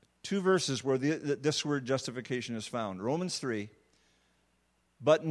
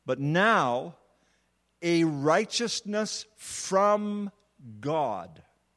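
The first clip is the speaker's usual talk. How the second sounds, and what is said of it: Speaks slowly and deliberately. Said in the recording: “I'm going to say it slowly.”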